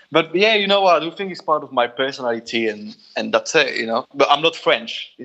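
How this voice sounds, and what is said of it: Strong French accent. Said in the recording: “the accent is very, a lot of French accent there”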